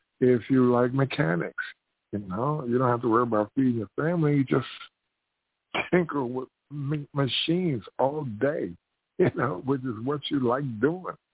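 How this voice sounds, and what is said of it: Hoarse, strained, failing voice. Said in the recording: “My voice is really gone here ... my throat is giving out here”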